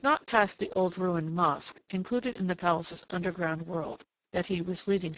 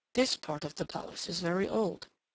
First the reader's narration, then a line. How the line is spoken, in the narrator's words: murmured over his shoulder